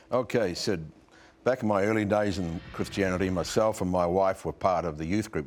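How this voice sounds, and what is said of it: New Zealand accent. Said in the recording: “he's from New Zealand ... That's the accent”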